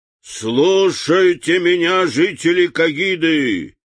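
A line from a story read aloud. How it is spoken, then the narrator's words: Loud proclamation. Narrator (Russian): громко провозгласил Урфин Джюс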